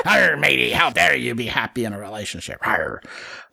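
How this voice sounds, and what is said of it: Pirate voice. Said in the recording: “Mine sounds like a pirate ... regardless of the accent”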